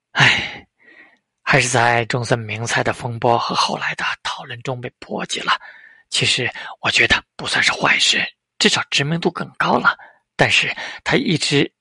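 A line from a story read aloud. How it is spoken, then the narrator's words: Sighing. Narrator (Chinese): 邱元康叹道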